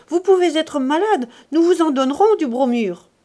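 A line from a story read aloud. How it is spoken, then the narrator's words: Shouted. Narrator (French): cria-t-elle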